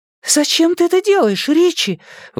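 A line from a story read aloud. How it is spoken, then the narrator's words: High frightened voice. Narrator (Russian): высоким испуганным голосом спросила Беверли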